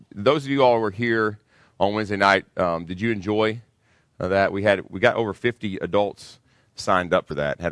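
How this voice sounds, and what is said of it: Slightly hoarse voice. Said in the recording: “my voice is still a little bit hoarse”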